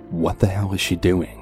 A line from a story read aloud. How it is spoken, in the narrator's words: mumbled to myself in complete shock